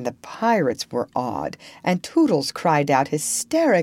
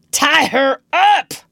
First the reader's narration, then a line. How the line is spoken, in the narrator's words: he shouted